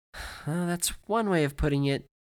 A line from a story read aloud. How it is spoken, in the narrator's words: she said, smiling weakly